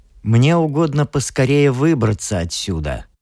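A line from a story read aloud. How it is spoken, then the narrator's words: Mocking reply. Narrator (Russian): ответил он, насмешливо кривя губы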